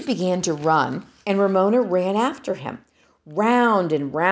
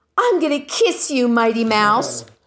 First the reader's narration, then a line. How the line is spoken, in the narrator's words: shrieked Ramona